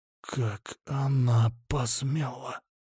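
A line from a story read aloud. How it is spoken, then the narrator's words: Ominous whisper in silence. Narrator (Russian): раздался в мертвой тишине зловещий шепот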